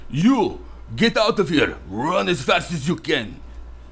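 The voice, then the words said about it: Thick Russian accent, deep voice. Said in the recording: “in a very thick Russian accent, deep voice”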